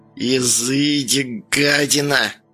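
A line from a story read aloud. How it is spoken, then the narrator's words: Old woman hissing. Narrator (Russian): процедила бабка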